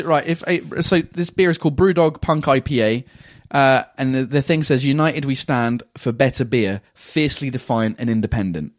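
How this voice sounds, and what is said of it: Attempted New Zealand accent. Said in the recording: “I'd like to try and do New Zealand, which is difficult. ... I've got the accent in my head, but I just can't reproduce it ... if I try and do Kiwi, it becomes Australian”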